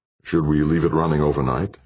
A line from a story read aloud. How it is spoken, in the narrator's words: Jordan asked